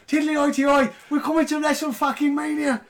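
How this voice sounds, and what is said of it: Poor put-on Irish accent. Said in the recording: “To be sure, we can't do Irish accents”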